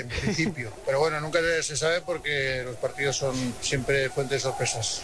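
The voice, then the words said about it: Strong Aragonese (maño) accent. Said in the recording (Spanish): “me ha salido acento mañito. ... Pero mucho, ¿eh?”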